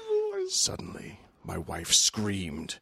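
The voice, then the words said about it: Big spooky voice. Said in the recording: “in a big spooky voice”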